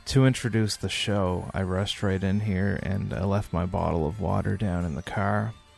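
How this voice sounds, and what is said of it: Raspy, hoarse voice. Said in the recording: “My voice is feeling very raspy ... I've got a bit of a cold ... my throat is hurting a lot”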